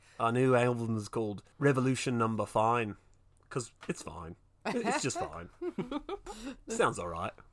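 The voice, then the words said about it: Wobbly Cockney accent, drifting Australian. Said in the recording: “My accent's all right. It's getting worse. ... you're wobbling from Cockney to like a little Australian, but not quite there.”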